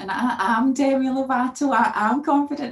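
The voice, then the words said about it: Put-on American accent. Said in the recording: “you switched to an American accent for that part.”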